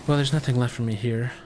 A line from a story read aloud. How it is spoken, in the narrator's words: sighs